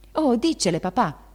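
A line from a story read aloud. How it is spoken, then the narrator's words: Shouting. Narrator (Italian): gridò Meg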